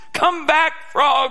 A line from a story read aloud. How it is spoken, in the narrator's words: he shouted